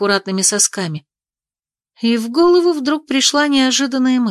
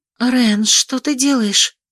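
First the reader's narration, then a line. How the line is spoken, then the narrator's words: Whisper. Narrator (Russian): шепнула я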